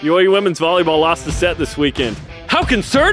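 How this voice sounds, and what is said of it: Usual voice. Nothing is said of it.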